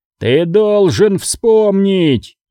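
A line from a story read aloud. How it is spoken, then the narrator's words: Yelling. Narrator (Russian): заорал Сактрик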